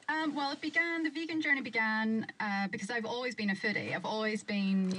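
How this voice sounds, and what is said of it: Northern Irish Derry accent. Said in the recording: “You're from Derry, as your accent instantly betrays.”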